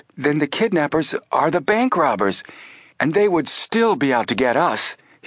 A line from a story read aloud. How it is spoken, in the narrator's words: he exclaimed